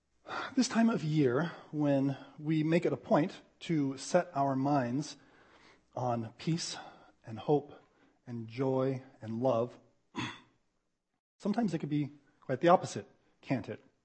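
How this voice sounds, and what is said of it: Voice still slightly changed, recovering. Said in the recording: “I'm on the tail end of a cold, so my voice is recovering a little bit more slowly than the rest of me, if you noticed a change in my voice.”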